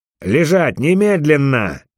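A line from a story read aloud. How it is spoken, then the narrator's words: Barked command. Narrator (Russian): гаркнул Микаэль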